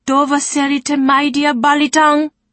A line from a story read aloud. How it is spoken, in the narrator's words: cried Sarai, shocked